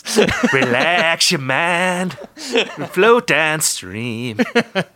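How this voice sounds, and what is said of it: Sung imitation of another person's voice. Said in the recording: “It's me trying to do a John Mayer impression... singing John Mayer... My John Mayer impression.”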